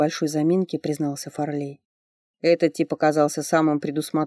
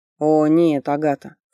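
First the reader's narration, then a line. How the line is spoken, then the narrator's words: Snorting, suppressed laughter. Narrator (Russian): Фарлей фыркнув от сдерживаемого с трудом смеха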